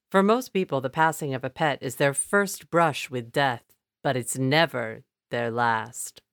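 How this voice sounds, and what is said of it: Imitates another person's voice. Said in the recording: “That was my best impression.”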